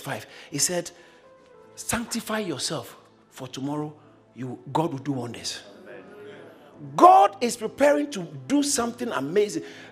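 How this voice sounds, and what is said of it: Speaks with a noticeable accent. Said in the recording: “It's my accent.”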